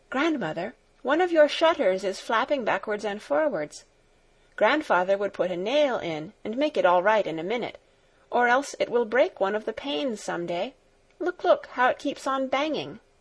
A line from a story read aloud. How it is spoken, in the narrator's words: All of a sudden she exclaimed